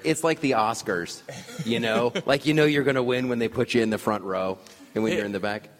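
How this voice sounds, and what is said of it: Put-on Boston accent. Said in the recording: “Great Cliff Clavin Boston accent there. ... I approve.”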